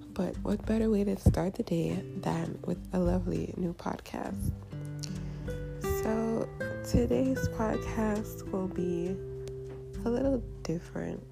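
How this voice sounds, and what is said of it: Scratchy, just-woken-up voice. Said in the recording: “my voice sounds a little scratchy. I am just getting up.”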